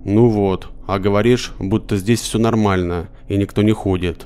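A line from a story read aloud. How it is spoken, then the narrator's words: Plain. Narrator (Russian): сказал ей я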